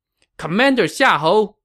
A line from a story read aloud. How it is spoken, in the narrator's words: Jiang Wei shouted